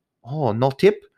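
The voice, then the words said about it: Put-on Asian accent. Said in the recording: “sorry for the Asian accent.”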